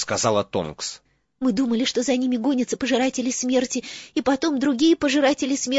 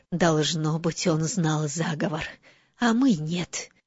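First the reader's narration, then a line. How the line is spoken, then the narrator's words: Whisper. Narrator (Russian): прошептала МакГонагал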